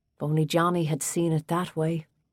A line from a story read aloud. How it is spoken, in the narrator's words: Danny said, his voice filled with regret